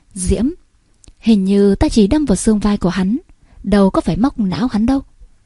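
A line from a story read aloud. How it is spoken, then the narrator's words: Smiling. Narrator (Vietnamese): mỉm cười nói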